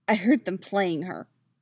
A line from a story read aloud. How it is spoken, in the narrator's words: he says, his voice tight